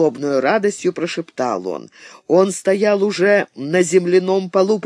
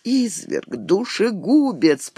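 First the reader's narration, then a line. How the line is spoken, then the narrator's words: Moaned. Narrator (Russian): простонала она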